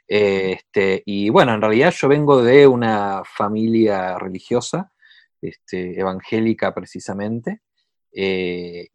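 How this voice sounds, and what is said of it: Argentine Spanish accent. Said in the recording (Spanish): “acento lo, muestra, soy de Argentina”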